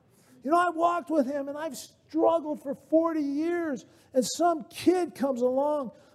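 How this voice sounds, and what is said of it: Usual voice. Nothing is said of it.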